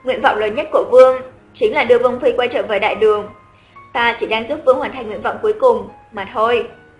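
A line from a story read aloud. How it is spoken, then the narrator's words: Cold reply. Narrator (Vietnamese): Khuynh Tường không khỏi lạnh lùng đáp lại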